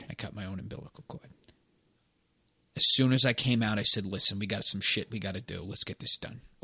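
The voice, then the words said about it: Boston accent. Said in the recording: “You came out with that accent? ... I came out with an accent. Listen, if you're from Boston, you come out with an accent”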